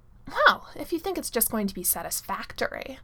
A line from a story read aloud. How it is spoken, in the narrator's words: Merlin says in his snottiest voice